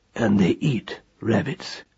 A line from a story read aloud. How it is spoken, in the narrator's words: said Roland quietly